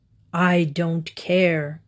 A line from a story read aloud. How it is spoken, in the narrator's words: growled the wolf